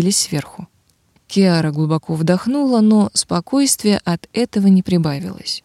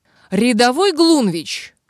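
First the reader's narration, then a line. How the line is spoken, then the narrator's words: Barked. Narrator (Russian): рявкнула она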